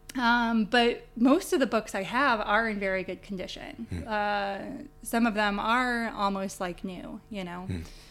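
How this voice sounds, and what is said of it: North American accent. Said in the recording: “Your accent suggests that somewhere you are from the Irish-American, Irish-North American diaspora.”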